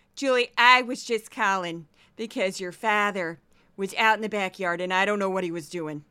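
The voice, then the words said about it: Impression of mother's St. Louis accent. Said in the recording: “St. Louis, which has a different accent ... Here's my mom.”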